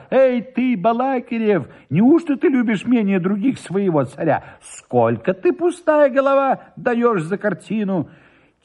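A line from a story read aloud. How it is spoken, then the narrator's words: Flustered, hurried shout. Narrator (Russian): Сбившись, наконец, от торопливости в счете денег, закричал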